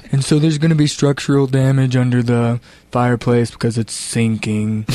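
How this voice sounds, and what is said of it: Imitates another person's voice, scientist-like. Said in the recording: “That's not her voice, also. That's my Dawn impression. Because she's like a scientist.”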